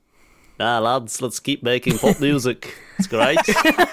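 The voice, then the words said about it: Put-on accent. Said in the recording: “do the accent. Hang on, say that line again, do the accent.”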